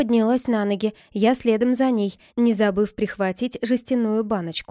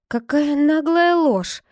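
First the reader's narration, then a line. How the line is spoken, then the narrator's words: Sighed. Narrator (Russian): вздохнула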